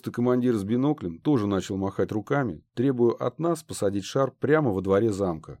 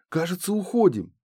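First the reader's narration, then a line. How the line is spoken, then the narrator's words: Joyful exclamation. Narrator (Russian): радостно воскликнул Воробей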